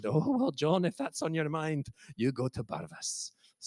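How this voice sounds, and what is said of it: Put-on accent for quoted speech. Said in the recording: “Excuse the accent.”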